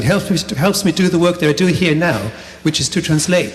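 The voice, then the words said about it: German-accented English. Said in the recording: “I'm German and listen to the kind of accent I speak”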